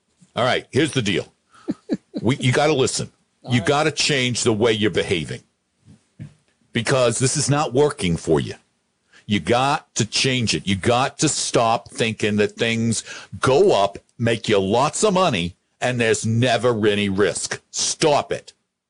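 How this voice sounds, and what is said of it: Put-on New York accent drifting Boston. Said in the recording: “let's see if I can do it with a New York accent. I'm going to kind of do my Cuomo ... Well, that was Boston ... That was Boston at the end.”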